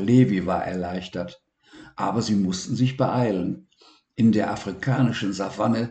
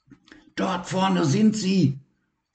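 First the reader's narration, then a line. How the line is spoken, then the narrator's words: Excited. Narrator (German): sagte Levi aufgeregt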